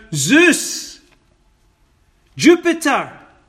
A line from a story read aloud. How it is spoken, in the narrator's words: He didn't shout